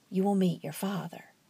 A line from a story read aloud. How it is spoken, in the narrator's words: he whispered in Isabel's ear